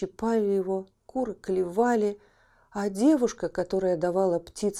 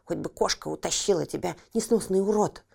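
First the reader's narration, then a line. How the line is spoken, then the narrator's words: Angry children. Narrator (Russian): братья и сестры сердито говорили ему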